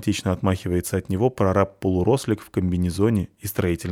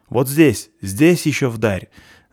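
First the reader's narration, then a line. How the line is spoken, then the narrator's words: Yelling. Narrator (Russian): вопит он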